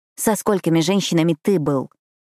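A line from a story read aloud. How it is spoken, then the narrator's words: Snapping retort. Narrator (Russian): огрызнулась я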